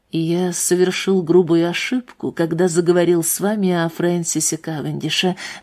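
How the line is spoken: Quiet. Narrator (Russian): начал Уэстон тихо

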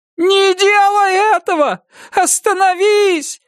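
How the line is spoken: Wailed. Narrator (Russian): взвыла миссис Сама рассудительность

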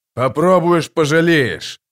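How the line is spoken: Growling threat. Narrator (Russian): прорычал он

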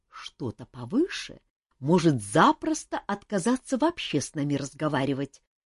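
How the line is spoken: Whispered reply. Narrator (Russian): таким же шепотом ответил его придворный маг

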